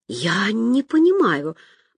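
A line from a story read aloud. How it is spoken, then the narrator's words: Whispered. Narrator (Russian): прошептала Зайка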